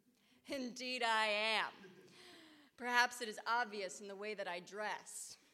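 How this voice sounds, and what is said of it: Indistinct theatrical stage accent. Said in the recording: “I talk with an undistinguishable accent. That is my stage accent.”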